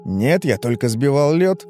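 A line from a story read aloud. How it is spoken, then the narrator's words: Slightly irritated reply. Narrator (Russian): немного раздраженно ответил Тух-Тух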